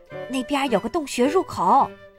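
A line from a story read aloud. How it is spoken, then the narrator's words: Surprised whisper. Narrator (Chinese): 他惊讶地低声说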